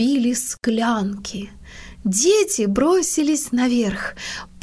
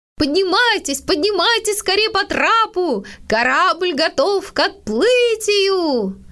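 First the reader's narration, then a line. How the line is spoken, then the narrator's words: Father shouting. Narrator (Russian): папа и закричал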